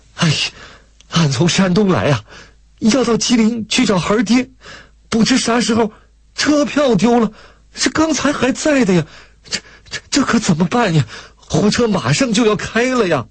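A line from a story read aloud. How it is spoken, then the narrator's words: Tearful, distressed woman. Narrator (Chinese): 大嫂子哭丧着脸说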